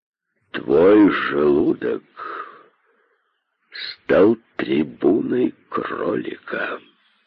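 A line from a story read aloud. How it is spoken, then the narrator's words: Menacing. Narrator (Russian): сказал он грозно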